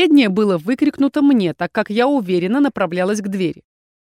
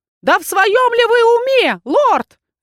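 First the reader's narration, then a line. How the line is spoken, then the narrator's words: Wailing, yelling. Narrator (Russian): завопило зеркало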